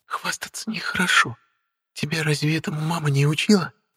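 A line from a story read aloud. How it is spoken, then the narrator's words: Whisper. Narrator (Russian): прошептал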